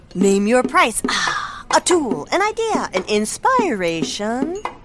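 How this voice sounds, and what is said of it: Beat poet style voice. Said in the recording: “my impression of a beat poet”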